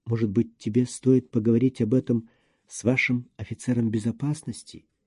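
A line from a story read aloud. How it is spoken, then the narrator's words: Barely audible question. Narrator (Russian): еле слышно спросила Лена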